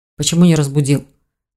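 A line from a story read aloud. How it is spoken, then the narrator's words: Grumbling. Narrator (Russian): проворчал дракон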